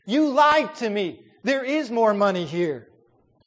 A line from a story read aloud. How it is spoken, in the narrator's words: began to scream at Sherman